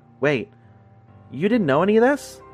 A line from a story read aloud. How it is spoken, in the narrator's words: he says in a surprised tone